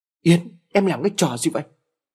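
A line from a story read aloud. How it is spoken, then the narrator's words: Shouted. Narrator (Vietnamese): Tú hét lớn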